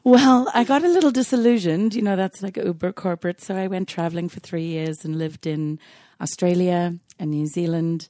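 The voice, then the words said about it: Mixed non-American accent. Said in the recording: “accent is quite an amalgamation. ... I've tried not to get an American accent”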